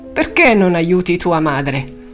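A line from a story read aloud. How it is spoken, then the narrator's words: Grumbling. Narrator (Italian): brontolando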